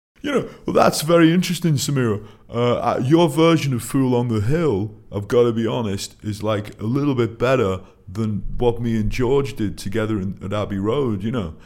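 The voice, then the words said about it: Imitates another person's voice. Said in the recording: “does quite a good impression, you know, of... I'll reply as Paul”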